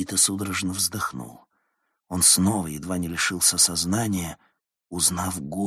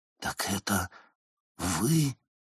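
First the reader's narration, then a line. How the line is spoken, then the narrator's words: Stunned breath. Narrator (Russian): потрясенно выдохнул Никита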